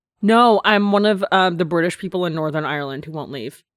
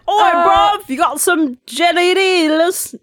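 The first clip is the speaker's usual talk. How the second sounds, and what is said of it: Put-on Cockney accent. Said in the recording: “this is not an Irish accent. Like, I literally only know how to sound like a Cockney dude”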